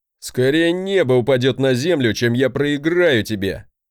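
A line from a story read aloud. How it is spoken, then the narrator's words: Chuckling. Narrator (Russian): хохотнул он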